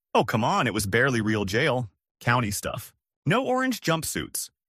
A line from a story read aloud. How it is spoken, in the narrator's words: The best man tried to laugh it off, saying